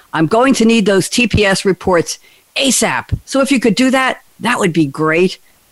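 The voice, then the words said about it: Imitates another person's voice. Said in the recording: “I don't do a good Gary Cole impersonation.”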